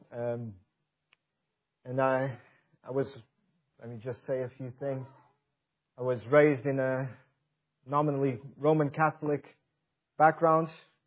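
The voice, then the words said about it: Portuguese accent. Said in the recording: “excuse my accent. I'm not originally from around these parts. I'm from Portugal.”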